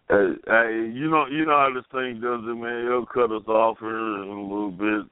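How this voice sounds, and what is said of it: Slurred speech. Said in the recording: “you can tell I'm slurring words.”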